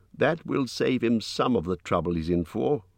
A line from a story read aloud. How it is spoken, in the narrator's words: said Mr